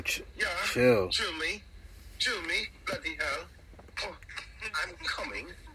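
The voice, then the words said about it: Put-on British accent. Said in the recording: “scream my name with an accent”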